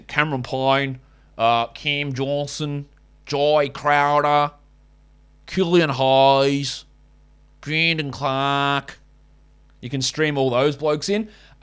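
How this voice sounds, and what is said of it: Bad put-on Australian accent. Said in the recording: “let's just do it in a bad Australian accent”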